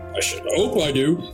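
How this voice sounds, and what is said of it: Child character with very deep voice. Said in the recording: “Small child. Terribly deep voice.”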